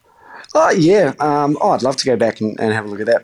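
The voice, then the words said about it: Mild, mellow accent. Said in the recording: “your accent is pretty mellow these days”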